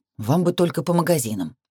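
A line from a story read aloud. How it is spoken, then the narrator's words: Grumbling. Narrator (Russian): проворчал Томас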